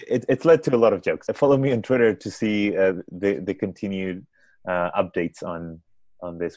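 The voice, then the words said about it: Spanish accent. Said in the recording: “my accent. My accent was Spanish and not Israeli.”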